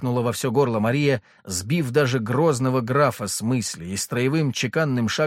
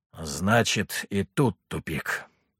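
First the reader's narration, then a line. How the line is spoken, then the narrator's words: Quiet. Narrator (Russian): тихо проговорил Мирослав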